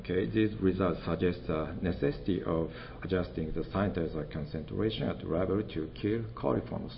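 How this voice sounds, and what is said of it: Japanese-accented English. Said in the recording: “my English with Japanese accent and sometimes Osaka dialect”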